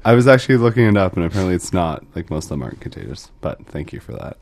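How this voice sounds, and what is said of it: Deep radio-style voice. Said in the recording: “Got a prime radio voice going today, my man. ... I think I actually have a sinus infection.”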